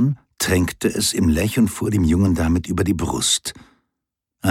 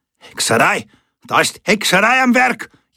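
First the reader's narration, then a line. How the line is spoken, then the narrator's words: Bellowing. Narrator (German): Jemand brüllte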